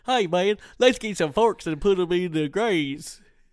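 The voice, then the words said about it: Imitates another person's voice. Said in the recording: “that your Nikola Tesla impression? ... that was my Tesla impression.”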